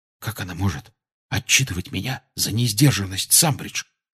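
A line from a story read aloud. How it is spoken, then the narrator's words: Whisper. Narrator (Russian): шепнул Гарри Рону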